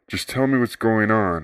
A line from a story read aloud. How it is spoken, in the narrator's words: pleaded